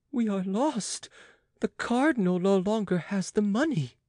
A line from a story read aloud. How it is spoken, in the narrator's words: cried Jean